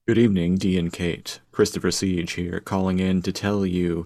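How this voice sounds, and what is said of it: Macabre radio announcer voice. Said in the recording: “It's a very macabre voice. ... He's got a great radio voice.”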